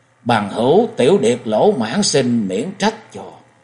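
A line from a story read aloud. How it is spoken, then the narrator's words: Hasty gentle apology. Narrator (Vietnamese): Không Vũ vội giả hành lễ nhẹ nhàng nói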